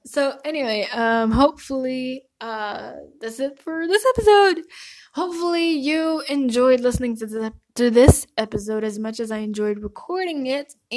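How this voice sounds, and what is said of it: Dry, strained voice. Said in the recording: “my voice sounds like so dry, because I've honestly been screaming my lungs out”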